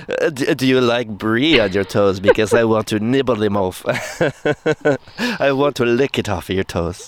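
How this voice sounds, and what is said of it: Put-on accent, admittedly not done well. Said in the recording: “I don't do accents well. ... I like that one better than your southern accent”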